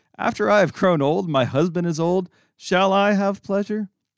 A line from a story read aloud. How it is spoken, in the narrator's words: Sarah laughed to herself, saying